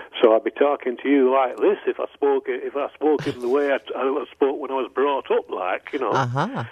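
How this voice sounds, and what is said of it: Strong Manchester accent. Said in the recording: “I was born in Manchester, where there's a very, very strong local accent.”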